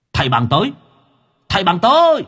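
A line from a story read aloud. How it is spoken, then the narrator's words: Sudden shout. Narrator (Vietnamese): Đột nhiên có cái tiếng hét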